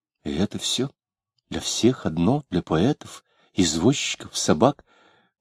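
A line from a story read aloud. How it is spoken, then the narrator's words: Woman's whisper in darkness. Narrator (Russian): в темноте он слышал ее шепот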